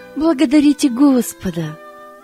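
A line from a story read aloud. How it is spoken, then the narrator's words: Plain. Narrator (Russian): сказала Таня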